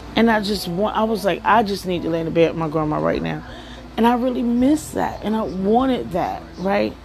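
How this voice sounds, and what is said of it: Shaky voice, holding back tears. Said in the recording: “my voice is shaking because I'm trying not to cry”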